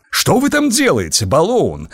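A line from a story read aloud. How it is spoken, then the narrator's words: Sudden exclamation. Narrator (Russian): вдруг воскликнул старший писарь Ванок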